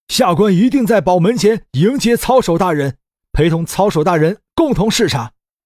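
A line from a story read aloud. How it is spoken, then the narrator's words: Loud, nervous. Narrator (Chinese): 苏公额头上冒出一层细汗，开始后悔自己对李直的试探，大声说道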